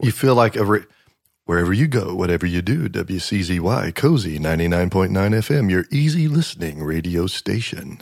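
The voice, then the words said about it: Radio DJ announcer voice. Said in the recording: “my radio jockey impersonation ... it turns you into a radio voice”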